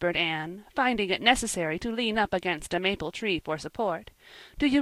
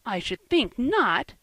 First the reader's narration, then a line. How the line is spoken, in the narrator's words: exclaimed Diana indignantly